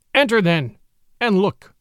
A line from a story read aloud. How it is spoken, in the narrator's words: said Father Wolf stiffly